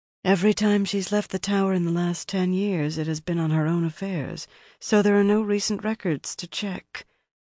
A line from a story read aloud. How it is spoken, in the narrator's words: her companion murmured